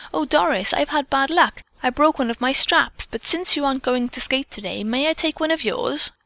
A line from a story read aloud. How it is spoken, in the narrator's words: the girl exclaimed